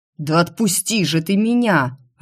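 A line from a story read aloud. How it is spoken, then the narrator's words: Exasperated growl. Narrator (Russian): рыкнул он, не выдержав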